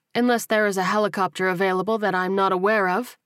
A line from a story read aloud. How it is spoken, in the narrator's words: replied dryly